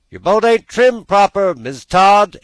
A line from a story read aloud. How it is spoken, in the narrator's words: exclaimed a voice from shore